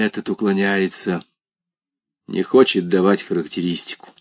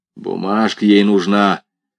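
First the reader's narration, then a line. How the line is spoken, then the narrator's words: Grumbling. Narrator (Russian): проворчал Малов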